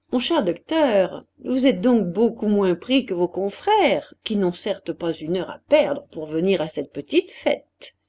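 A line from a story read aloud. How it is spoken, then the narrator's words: Joking tone. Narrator (French): Il dit d'un ton blagueur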